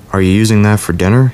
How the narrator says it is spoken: he'd said

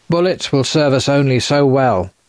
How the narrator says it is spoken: Castor shouted

